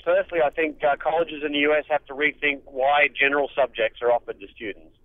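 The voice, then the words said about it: Australian accent. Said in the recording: “I come from Australia, as you might have guessed from the accent.”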